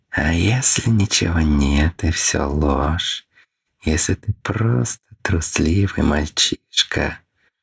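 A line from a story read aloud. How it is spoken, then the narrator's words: Drawling alien inner whisper. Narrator (Russian): шептал тягучий, чужой голосок в голове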